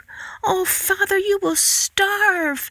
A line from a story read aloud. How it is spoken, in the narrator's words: Marigold cried